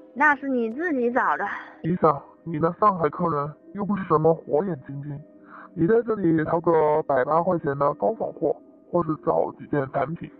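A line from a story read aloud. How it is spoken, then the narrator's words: Laughing. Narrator (Chinese): 少爷笑道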